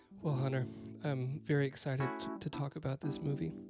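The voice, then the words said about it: NPR-style radio voice. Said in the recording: “I've got my NPR voice on”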